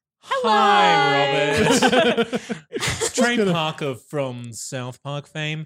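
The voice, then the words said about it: Imitates another person's voice. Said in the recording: “That's a really good impression.”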